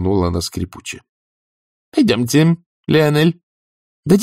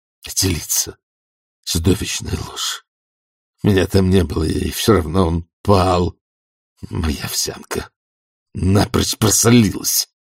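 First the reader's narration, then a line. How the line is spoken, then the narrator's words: Muttering. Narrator (Russian): бормотал герцог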